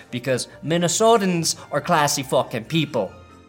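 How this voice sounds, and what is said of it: Put-on Minnesota accent. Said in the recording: “That's my Minnesota accent.”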